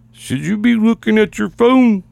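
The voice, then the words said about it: Imitates another person's voice, too deep. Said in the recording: “my Chris impression ... Too much bass in my voice.”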